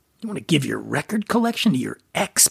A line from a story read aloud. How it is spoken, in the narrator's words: Brian sputtered, incredulous